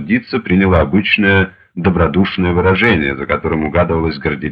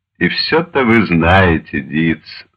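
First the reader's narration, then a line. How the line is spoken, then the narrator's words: Sighing. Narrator (Russian): вздохнул Штирлиц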